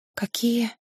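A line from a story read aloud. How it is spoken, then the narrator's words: Barely audible whisper. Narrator (Russian): Шепотом, едва размыкая губы, выдохнула она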